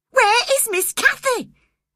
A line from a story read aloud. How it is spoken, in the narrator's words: I cried wildly